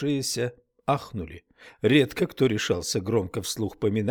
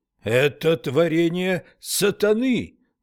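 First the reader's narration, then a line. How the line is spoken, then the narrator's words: Screaming. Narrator (Russian): завопил Уитни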